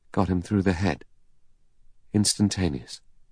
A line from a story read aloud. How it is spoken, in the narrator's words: The doctor said, still in the same lifeless voice